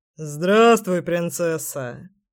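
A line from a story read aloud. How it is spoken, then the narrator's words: Deep rumbling voice. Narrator (Russian): пробасил зверь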